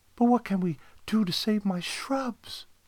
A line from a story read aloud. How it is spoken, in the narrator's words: She pleaded